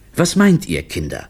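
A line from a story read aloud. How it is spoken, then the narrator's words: Plain question. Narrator (German): fragte Olivio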